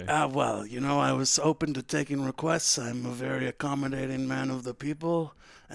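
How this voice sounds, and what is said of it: Gravelly mobster-like voice, sounds choked up. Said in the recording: “You're in the Italian mob now ... how did my voice get this way ... Why my voice is like this? ... I sound like I'm choking up constantly”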